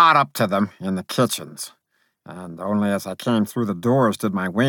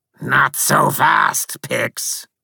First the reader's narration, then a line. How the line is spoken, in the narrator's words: growled Scar-Eye in his horrible buzzing voice